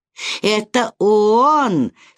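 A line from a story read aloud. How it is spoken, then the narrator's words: Laughing. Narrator (Russian): сказал, смеясь, сын Люциферов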